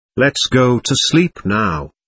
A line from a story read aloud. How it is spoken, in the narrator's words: Acock said